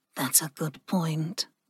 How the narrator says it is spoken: Ling murmured

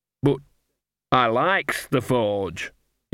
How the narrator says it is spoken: he said slowly

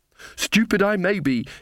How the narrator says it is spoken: she panted

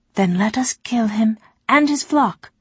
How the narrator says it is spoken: Nawat said brightly

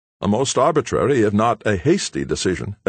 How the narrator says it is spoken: exclaimed Hayward, undecided whether to give vent to his growing anger or to laugh in the other's face

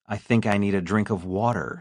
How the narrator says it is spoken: she gasps

